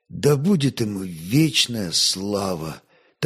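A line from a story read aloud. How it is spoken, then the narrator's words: Quiet. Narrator (Russian): так же тихо отвечал Святослав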